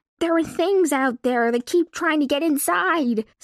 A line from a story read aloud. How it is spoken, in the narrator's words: Slicker begged